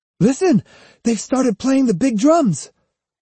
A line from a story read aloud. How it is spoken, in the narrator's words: Iori said excitedly